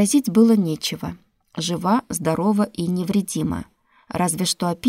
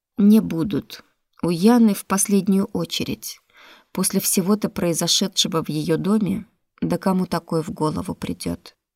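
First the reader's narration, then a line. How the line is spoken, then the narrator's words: Sigh. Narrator (Russian): Рошер вздохнул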